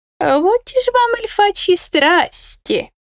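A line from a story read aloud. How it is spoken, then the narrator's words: Excited squeak. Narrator (Russian): Взволнованно пискнул Кусимар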